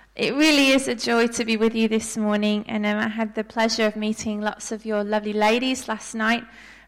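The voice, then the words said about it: Non-Australian accent. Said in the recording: “I'm not a native Australian with my accent”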